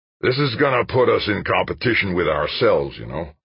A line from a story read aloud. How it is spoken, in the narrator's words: Garrison grumbled